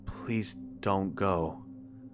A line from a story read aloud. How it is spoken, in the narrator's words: I said softly